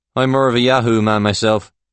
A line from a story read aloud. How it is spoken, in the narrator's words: Paul says